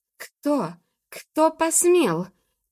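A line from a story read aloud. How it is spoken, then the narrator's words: Shrill shrieking magpies. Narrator (Russian): кричали истошно сороки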